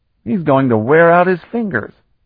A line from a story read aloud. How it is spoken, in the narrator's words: Calton grunted